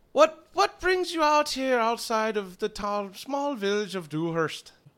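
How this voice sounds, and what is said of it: Put-on Irish or Scottish accent. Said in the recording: “you sound kind of funny ... Are you from Scotland? ... That's more Irish ... you sound like an Irishman”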